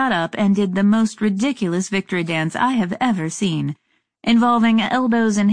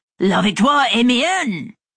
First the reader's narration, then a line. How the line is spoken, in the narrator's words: suddenly threw his hands into the air and shouted